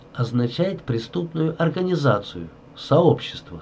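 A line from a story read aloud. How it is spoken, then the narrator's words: Plain. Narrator (Russian): сказал консул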